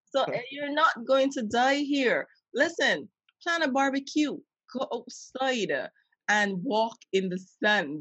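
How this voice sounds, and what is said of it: Caribbean accent. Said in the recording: “this is me and my Caribbean accent ... when I get accent-y”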